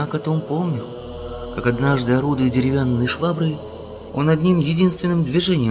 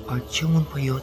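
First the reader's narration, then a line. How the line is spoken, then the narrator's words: Whispered question. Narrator (Russian): шептом спросила София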